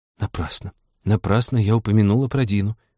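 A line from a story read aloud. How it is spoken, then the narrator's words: Glum, to herself. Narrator (Russian): уныло сказала она про себя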